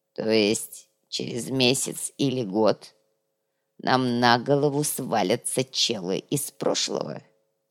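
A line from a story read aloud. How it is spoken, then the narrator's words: Grumbling mutter. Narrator (Russian): буркнул князь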